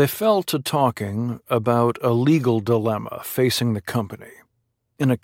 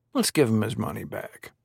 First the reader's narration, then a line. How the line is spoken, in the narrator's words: he said